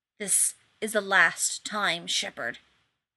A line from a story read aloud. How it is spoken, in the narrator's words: the wraith man hissed, and he sounded more furious than even Rodney had expected